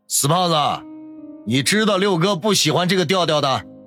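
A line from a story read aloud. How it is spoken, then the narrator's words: Jokingly scolding. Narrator (Chinese): 陈六笑骂道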